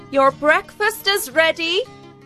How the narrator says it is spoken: his housekeeper called out

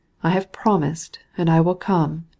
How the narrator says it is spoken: he replied in a melancholy tone

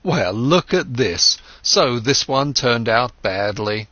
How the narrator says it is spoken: When he made losses, he laughed and said

